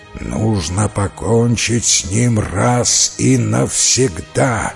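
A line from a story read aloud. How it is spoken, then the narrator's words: Rough growl. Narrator (Russian): прорычал грубый голос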